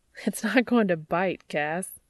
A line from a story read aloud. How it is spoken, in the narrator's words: Dean chuckles